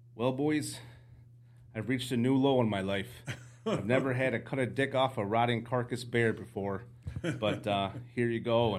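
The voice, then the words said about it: Put-on Canadian accent. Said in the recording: “I'm going to try my Canadian accent again”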